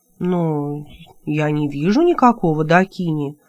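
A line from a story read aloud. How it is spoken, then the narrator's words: Confused female voice. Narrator (Russian): растерянно произнесла она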